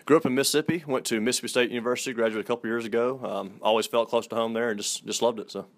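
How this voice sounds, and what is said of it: Southern American accent. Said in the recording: “that Southern gentleman, and I can hear it in your voice. I love the Southern accent.”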